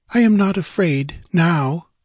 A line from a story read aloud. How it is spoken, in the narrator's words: she sighed